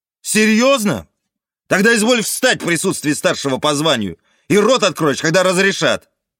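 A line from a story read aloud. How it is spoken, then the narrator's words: Yelling. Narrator (Russian): вопил я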